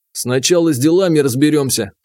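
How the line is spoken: Stern. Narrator (Russian): строго сказал я

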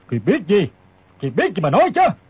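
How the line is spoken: Old man barking. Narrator (Vietnamese): Lão quát hỏi

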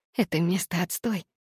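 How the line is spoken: Whisper. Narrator (Russian): прошептала я

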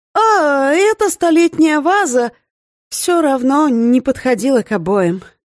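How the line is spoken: Heavy sigh. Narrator (Russian): Тяжело вздохнул сосед

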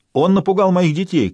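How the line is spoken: Shouted. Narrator (Russian): крикнул кто-то еще

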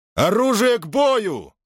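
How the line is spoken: Shout. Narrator (Russian): крикнул он

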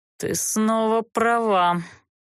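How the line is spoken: Conciliatory sigh. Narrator (Russian): примирительно вздохнул Олтерн

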